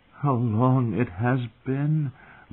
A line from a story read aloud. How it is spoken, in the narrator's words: Lysa murmured against her